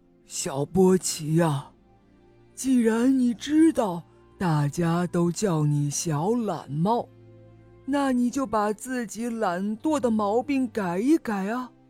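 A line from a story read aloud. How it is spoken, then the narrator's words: Slow drawl. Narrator (Chinese): 他慢吞吞地回答波奇说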